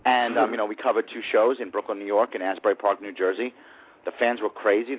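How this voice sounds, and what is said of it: Brooklyn accent. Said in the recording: “I'm from Brooklyn, if you couldn't tell by the accent.”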